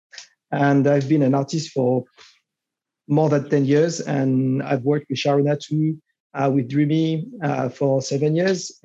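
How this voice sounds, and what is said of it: Strong French accent in English. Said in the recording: “as you can tell by the outrageous accent, I'm from France”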